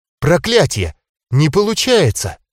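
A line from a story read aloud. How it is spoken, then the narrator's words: Surprised exclamation. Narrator (Russian): удивленно воскликнула она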